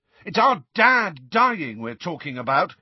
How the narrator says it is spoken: yelled George

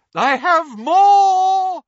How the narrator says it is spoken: shrieked Professor Trelawney from over the banisters

